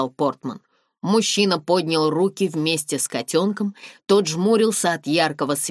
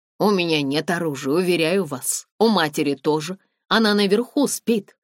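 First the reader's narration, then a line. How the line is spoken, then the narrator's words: Plain. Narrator (Russian): сказал он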